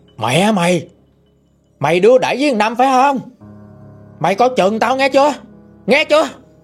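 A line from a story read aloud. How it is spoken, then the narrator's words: Stern, gritted voice. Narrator (Vietnamese): Ổng gằn giọng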